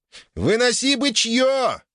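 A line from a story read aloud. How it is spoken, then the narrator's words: Joyful yell. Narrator (Russian): радостно заорал Циолковский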